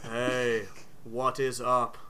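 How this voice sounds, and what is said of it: Flat monotone character voice. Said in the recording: “I like the monotone.”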